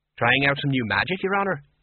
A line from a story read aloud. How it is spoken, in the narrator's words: said brightly